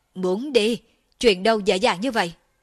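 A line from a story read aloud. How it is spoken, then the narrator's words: Low growl. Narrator (Vietnamese): Thiên Sát chân quân gầm nhẹ lên một tiếng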